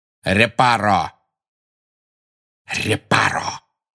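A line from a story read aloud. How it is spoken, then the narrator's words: Hissing. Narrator (Russian): прошипел Снег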